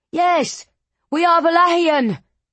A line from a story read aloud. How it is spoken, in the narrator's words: he shouted, voice quavering